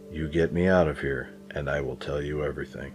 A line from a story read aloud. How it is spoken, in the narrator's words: whispering